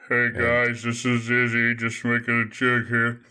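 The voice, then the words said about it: Flat monotone voice. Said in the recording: “I'm talking monotone about the whole thing the whole time.”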